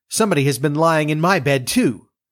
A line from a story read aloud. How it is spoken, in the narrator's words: The others came up and each called out